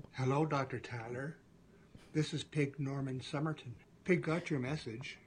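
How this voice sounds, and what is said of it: Canadian accent. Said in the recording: “that Canadian accent”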